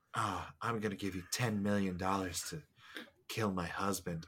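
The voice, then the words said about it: Exaggerated sultry sexy voice. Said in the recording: “this stupid, sexy voice the whole time”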